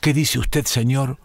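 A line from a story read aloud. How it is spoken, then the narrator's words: Stammering. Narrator (Spanish): El hombre balbuceó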